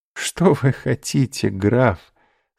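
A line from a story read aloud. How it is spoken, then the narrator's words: Laughing. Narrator (Russian): сказала, смеясь, госпожа де Вильфор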